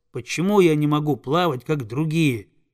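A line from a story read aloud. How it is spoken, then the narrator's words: Plain question. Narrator (Russian): спросил он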